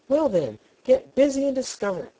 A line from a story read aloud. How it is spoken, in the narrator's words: snapped the Queen